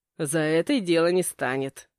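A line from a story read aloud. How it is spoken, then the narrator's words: Snort. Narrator (Russian): хмыкнул отец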